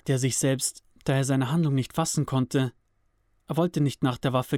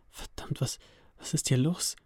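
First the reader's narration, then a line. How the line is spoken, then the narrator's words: Frantic stammering. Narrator (German): stotterte er komplett außer sich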